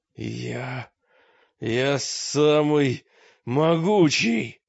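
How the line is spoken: Strained stranger's voice. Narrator (Russian): выдавил чужак

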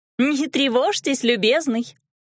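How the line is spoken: Short laugh. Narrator (Russian): хохотнула я

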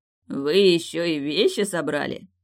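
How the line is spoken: Chuckling. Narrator (Russian): хохотнул Фиери

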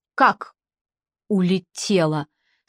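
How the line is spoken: Stammering. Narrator (Russian): спросила Елена, заикаясь

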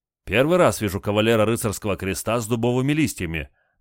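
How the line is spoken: Admiring woman's exclamation. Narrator (Russian): восхищенно воскликнула женщина

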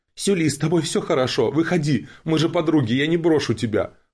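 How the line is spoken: Princess shouting. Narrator (Russian): выкрикнула принцесса

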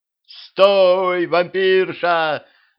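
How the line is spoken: Yelled. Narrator (Russian): заорал Петрович

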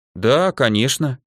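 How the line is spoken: Absent-minded. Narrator (Russian): рассеянно сказала

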